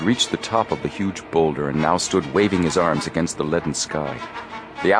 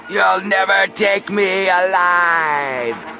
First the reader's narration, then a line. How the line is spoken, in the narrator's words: screamed Big Al